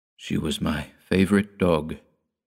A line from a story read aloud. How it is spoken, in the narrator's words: Peter whispered